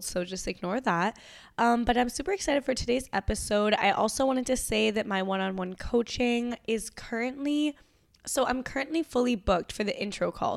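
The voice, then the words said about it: Nasal, raspy voice from a cold. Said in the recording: “I have a little bit of a cold right now, so if my voice is a little bit nasally or like different or like raspy than normal”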